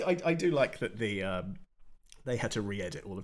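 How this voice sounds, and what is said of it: Usual voice. Nothing is said of it.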